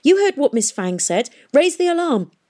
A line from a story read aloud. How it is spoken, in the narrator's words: as he ran towards the stairs, he shouted back at her